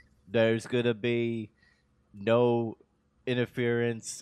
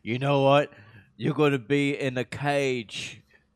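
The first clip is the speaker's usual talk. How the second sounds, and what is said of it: Sluggish British accent imitation. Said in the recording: “That's just my normal British accent ... it's like William Regal on Quaaludes”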